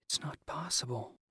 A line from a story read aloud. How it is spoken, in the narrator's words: Perry whispered